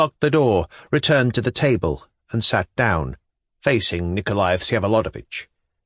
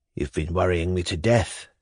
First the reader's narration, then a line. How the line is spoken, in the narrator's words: said in a soft half-whisper